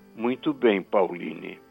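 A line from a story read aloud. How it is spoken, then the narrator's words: Plain. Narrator (Portuguese): disse meu pai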